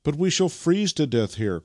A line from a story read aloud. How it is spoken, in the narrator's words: cried Vasily